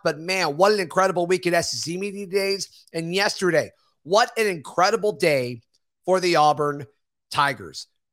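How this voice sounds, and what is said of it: Hoarse, strained, worn-out voice. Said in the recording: “My voice is almost shot”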